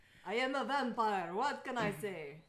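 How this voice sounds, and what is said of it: Terrible put-on Transylvanian accent. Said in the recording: “a really terrible Transylvanian accent”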